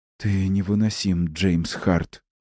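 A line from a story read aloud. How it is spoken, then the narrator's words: Breathless, moaning. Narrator (Russian): срывается с ее губ вперемешку с прерывисто-быстрым дыханием и стонами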